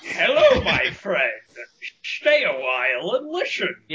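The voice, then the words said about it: Imitates video game character Deckard Cain. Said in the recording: “Every Deckard Cain impersonation ... Deckard Cain is just a Sean Connery impression”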